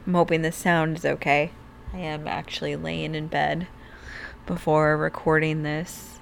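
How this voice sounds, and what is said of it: Hoarse, strained voice. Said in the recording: “I'm losing my voice real bad ... getting an obvious sore throat”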